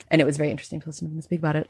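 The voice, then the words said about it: Mock-serious podcaster voice. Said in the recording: “I'm being in my serious voice... what if I acted like a very serious podcaster”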